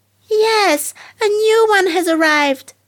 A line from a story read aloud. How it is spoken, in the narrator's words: the other children shouted joyously